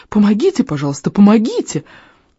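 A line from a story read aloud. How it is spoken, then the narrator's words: Squeaky plea. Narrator (Russian): пропищал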